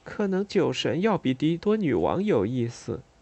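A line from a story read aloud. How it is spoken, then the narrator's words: Quiet mutter. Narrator (Chinese): 我小声嘀咕了一句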